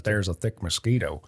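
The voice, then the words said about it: Put-on old-timey Canadian accent. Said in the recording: “That's my 1800s Canadian accent.”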